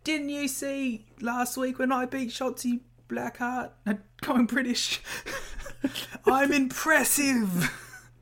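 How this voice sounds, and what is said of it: Struggling put-on Australian accent. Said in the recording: “Giving you an excuse to continue an Australian accent ... I like that you're struggling with an Australian accent.”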